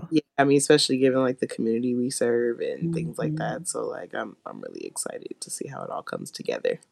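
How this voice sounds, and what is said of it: Raspy, husky voice. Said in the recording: “I'm sounding all, like, raspy today. I got my sexy voice on.”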